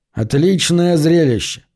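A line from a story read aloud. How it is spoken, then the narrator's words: Mocking. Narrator (Russian): насмешливо произнес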